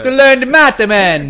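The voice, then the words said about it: Bad put-on Jamaican accent. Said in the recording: “bad Jamaican accent”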